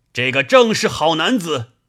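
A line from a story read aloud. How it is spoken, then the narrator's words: Loud shout. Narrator (Chinese): 李逵在人丛中高叫道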